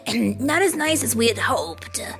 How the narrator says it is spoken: grumbled Douglas through a mouthful of leaves

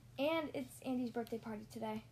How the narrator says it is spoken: Woody added quietly

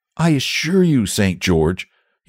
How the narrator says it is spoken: he said earnestly

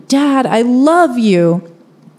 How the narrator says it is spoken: I yell towards my dad

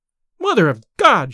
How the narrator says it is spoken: she cried

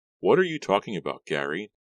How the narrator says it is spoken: Della asked wearily

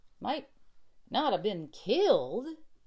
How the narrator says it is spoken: exclaimed the cowboy

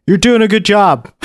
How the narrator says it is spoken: I yelled at him

